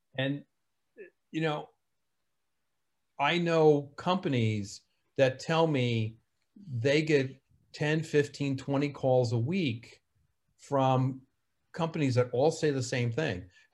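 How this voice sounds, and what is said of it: New Jersey accent. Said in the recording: “My New Jersey accent sometimes gets in the way.”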